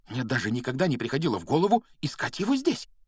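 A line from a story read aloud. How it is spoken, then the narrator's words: Excited whisper. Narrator (Russian): взволнованно прошептала она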